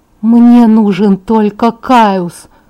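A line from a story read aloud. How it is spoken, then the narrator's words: Calm. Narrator (Russian): спокойно сказала Таня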